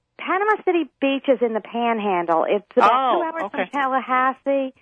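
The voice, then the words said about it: Regional accent. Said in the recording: “I can hear the accent working its way in, too.”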